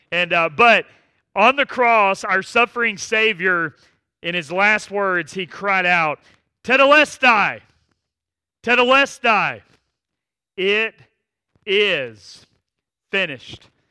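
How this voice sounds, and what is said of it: Slight Southern American twang. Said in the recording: “I'm kind of Southern ... I'm probably bringing a little bit of a Southern twang to this word, tetelestai”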